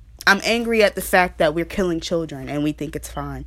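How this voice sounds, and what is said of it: Aggressive, angry-sounding delivery. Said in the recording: “I'm sorry if I sound aggressive. I'm sorry if I sound angry. But frankly, I am.”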